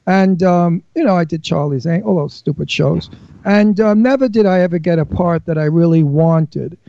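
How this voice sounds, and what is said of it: Brooklyn accent. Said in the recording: “they always cast me as a Brooklyn mafioso. I don't know why, but I was always a gangster because of my accent.”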